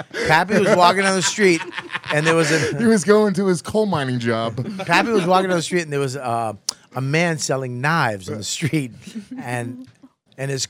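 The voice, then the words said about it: Speaks with a noticeable accent. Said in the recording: “is so funny with your accent.”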